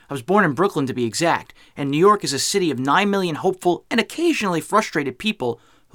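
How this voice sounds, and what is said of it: New York accent. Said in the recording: “As you can tell from my accent, I'm a New Yorker.”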